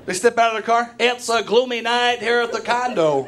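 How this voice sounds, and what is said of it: Sports announcer voice. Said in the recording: “I love baseball just for the announcer voice. ... I love that voice.”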